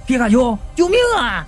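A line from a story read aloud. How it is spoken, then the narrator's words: Screaming in agony. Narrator (Chinese): 老王一阵惨叫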